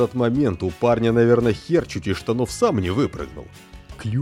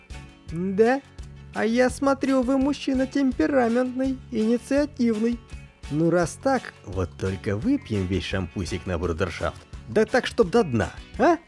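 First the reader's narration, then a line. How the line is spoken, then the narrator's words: Feigned languid voice. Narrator (Russian): та, наигранно разомлевшим голосом, ответила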